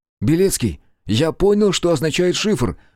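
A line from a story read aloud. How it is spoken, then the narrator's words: Exclamation. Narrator (Russian): воскликнул Руднев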